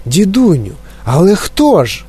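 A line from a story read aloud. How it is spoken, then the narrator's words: Exclaiming. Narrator (Ukrainian): вигукнув Чарлі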